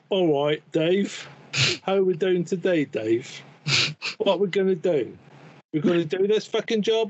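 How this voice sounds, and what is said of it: Put-on English accent. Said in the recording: “give the audience your best English accent”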